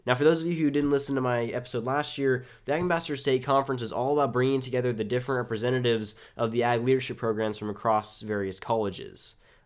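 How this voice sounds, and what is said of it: Congested voice with sniffling. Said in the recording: “excuse my voice and constant sniffling ... I woke up with a cold”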